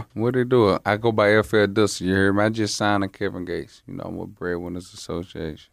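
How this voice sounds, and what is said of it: Louisiana accent. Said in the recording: “Y'all heard that accent, right? Y'all hear that shit?”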